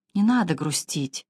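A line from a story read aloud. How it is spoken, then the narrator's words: Quiet. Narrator (Russian): тихо сказала мадам Долерей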